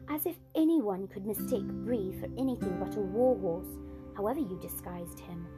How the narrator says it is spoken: said Erebus rather scornfully

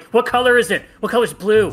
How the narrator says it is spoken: you get all mad, you just shout out

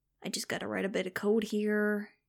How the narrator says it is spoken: he muttered

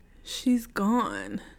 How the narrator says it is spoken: Antoinette moaned into the phone

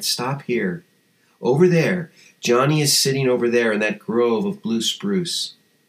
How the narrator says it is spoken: his guide calmly said

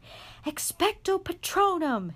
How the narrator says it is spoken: Harry yelled

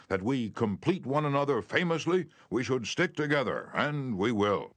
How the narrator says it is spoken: he exclaimed with enthusiasm

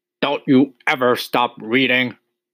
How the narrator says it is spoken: he snapped at her

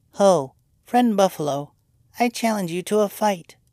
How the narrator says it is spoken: he exclaimed in a small, squeaking voice

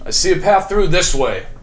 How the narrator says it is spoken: Jasper kind of yells out

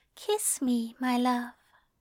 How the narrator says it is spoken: he whispers

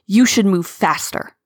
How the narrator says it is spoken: Tigerstar snarled

